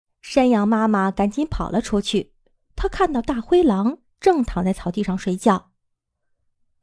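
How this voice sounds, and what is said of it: Usual voice. Nothing is said of it.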